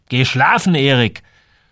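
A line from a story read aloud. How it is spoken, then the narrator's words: Angry. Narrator (German): war immer noch wütend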